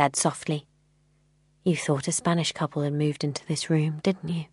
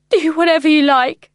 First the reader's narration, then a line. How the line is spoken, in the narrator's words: I sobbed